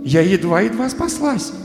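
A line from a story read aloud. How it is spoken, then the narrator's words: Relieved, pleased exclamation. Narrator (Russian): воскликнула Алиса, очень довольная, что все кончилось благополучно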